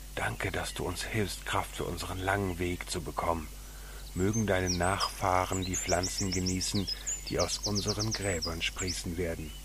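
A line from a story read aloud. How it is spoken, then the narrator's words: Whisper. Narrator (German): flüsterte in das große braune Ohr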